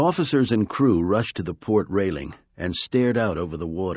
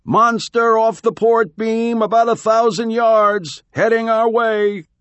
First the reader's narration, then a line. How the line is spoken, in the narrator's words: a lookout in the rigging shouted down to the deck